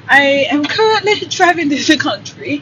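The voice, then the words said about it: Fake British accent. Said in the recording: “That's my fake British accent.”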